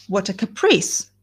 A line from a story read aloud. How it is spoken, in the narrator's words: she exclaimed